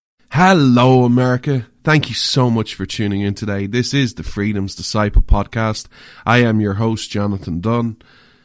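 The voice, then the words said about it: Speaks with a noticeable accent. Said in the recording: “where you come for the accent”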